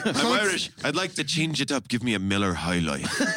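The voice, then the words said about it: Put-on Irish accent. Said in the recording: “If I ever go to Ireland, that's how I'm going to walk into a bar and be like, I'm Irish. ... You know it's a good accent when you have to say, I'm Irish.”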